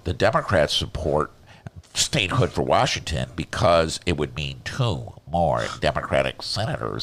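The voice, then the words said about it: Nasal held-nose political impression. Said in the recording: “do a Ted Cruz impression. All you got to do is just hold your nose, and it kind of sounds like him”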